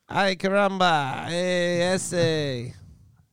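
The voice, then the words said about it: Poor attempt at Mexican accent. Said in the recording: “We cannot do a Mexican accent, and every other accent we can nail”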